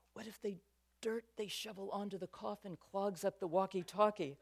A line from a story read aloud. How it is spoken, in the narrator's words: He ... whispered